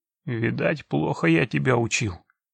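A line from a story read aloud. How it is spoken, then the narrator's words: Muttered. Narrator (Russian): пробормотал он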